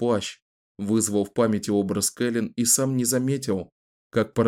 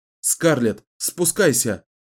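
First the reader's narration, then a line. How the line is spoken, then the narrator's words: Joyful shout. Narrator (Russian): радостно крикнул Ричард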